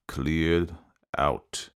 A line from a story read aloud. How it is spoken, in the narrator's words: with fury, with exasperation, as though he would devour her, Alexei Nikolaitch said in a quiet, stifled voice